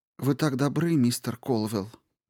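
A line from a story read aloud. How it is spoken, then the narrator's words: Muttering widow. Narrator (Russian): пробормотала вдова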